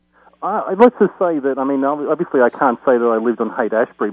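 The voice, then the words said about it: Australian accent. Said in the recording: “I'm an American with an Australian accent, not like a Mel Gibson ... Yeah, no, I picked up on it.”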